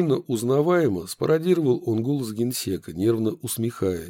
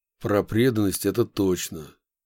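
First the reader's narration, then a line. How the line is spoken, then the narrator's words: Gloomy agreement. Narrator (Russian): мрачно согласился Яковлев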